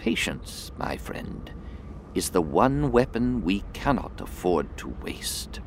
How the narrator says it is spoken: she whispered softly

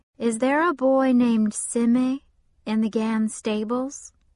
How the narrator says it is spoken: said

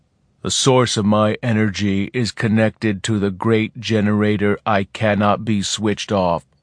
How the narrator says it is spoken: he said in a level tone

